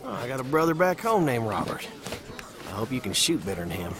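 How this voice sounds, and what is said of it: Tennessee Southern accent. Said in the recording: “I never heard an accent like that before. ... Tennessee, Pall Mall area.”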